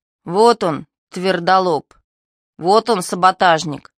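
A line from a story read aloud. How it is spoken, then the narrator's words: Several voices chanting. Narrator (Russian): завели было Кривонос с компанией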